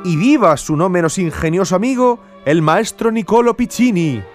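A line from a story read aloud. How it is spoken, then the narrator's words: Shouted in turn. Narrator (Spanish): gritó a su vez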